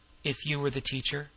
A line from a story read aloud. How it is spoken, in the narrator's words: he added softly